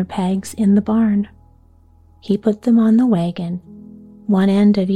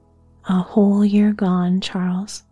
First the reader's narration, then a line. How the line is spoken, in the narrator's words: Ma sighed gently and said